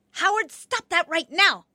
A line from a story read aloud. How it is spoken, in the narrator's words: my mother was yelling at my brother